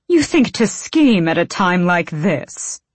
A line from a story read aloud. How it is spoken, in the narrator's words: Argan snapped